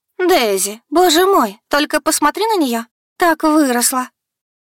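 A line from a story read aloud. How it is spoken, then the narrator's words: Exclaimed. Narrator (Russian): Воскликнула мать Вайолет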